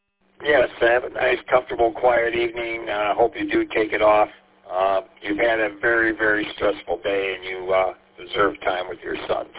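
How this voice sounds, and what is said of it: Raw, hoarse voice. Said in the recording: “I apologize for my voice. It's kind of raw. ... I lost my voice”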